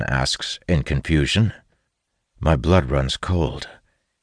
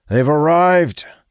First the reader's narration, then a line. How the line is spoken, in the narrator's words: shouts back